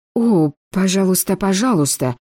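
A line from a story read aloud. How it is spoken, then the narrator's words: Timid. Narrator (Russian): робко произнесла она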